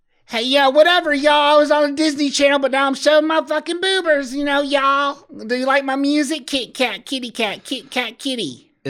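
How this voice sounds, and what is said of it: Imitates another person's voice. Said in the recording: “I was doing a voice. ... do an impersonation”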